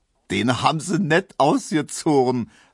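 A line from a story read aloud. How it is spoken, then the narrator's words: Laughing. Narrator (German): lachte Neumann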